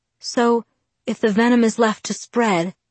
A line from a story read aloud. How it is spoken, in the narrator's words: I murmured